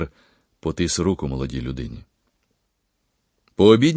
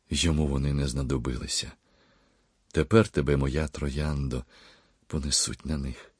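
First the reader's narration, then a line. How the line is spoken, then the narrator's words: Quiet tearful speech. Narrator (Ukrainian): пан Микола зі сльозами на очах тихо говорив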